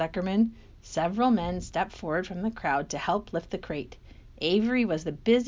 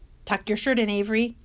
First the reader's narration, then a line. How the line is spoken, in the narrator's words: cried Mrs